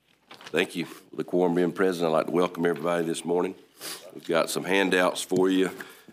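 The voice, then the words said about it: Rough, under-the-weather voice. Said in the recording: “Excuse my voice. I've sort of been under the weather this weekend... Mine's going to be a little worse today.”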